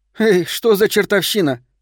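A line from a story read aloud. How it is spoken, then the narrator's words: Laughing. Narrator (Russian): рассмеялась я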